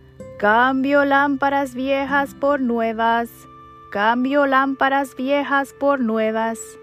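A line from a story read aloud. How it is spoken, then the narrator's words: Shouted. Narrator (Spanish): gritó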